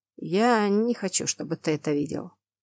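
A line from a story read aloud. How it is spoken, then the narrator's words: Calm reply. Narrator (Russian): спокойно отозвался Тамаш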